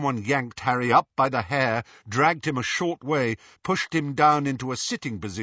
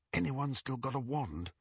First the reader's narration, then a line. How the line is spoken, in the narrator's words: Harry whispered to the other prisoners